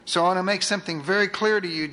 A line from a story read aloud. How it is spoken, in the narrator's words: Jesus said